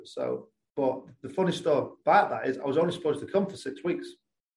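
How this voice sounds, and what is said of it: English accent. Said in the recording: “I haven't lost too much of the English accent, I don't think ... my accent's normally stronger when I come back”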